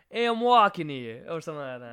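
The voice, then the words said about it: Bad put-on New York accent. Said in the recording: “You know what they say in New York, right? ... accent? ... Really bad ... Terrible. ... That was terrible. I've never tried it.”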